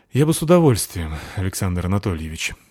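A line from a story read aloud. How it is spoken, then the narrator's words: Sighing. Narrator (Russian): вздохнул я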